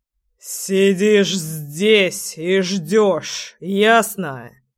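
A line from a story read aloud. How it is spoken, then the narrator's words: Growling. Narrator (Russian): Прорычал крестный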